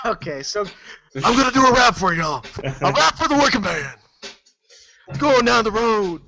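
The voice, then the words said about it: Stone Cold Steve Austin impression. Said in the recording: “you gotta do it in your Stone Cold voice”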